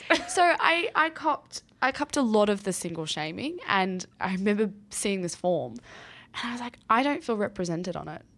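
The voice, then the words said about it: Hoarse, fading voice. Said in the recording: “I'm losing my voice too”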